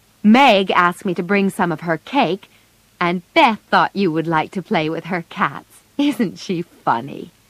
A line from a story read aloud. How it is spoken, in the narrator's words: Laurie laughed